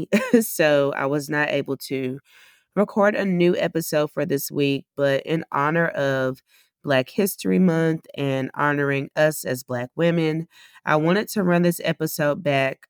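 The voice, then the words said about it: Stuffy, congested voice. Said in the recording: “I sound a little stuffy”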